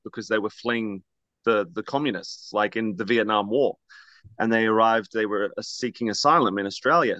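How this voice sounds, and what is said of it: Slight Australian accent. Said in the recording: “I have a bit of an accent. I'm originally from Australia.”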